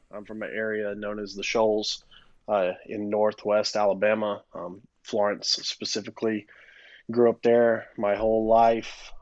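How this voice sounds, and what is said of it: Alabama accent. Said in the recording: “my accent ... I'm from Alabama”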